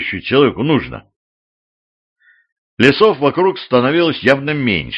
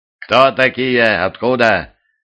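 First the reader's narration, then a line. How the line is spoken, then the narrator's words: Stern question from above. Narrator (Russian): строго спросили с надвратного терема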